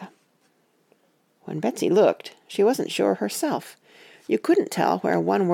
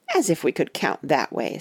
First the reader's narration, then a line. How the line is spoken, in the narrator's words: scoffed Katie